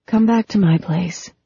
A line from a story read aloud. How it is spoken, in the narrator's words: Phoebe said, so low that she barely breathed it